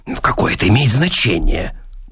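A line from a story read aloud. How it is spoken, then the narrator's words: Grumbling mutter. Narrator (Russian): буркнул Сэнгстрем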